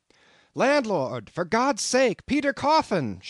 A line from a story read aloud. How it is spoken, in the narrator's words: shouted